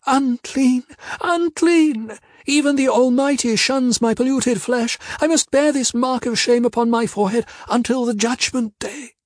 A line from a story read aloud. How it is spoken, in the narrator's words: she wailed out